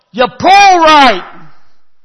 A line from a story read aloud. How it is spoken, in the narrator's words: So I yell